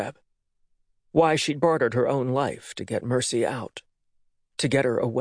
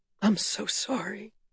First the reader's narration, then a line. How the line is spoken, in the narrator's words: Rhoda whispered